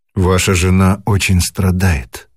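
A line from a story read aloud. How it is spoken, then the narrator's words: Sigh. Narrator (Russian): вздохнул он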